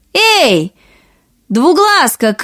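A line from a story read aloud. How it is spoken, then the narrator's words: Two girls shouting. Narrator (Russian): крикнули обе сестры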